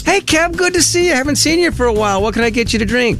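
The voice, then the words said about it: Coffee stand girl character voice. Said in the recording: “That was you doing your espresso, your coffee stand girl voice”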